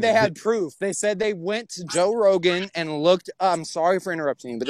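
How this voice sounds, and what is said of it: Usual voice. Nothing is said of it.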